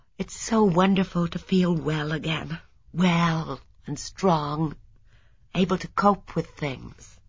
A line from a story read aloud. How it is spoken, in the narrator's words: Marina said, sighing softly